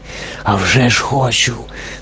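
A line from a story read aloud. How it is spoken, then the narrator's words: Excited old man's whisper. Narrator (Ukrainian): схвильовано прошепотів старий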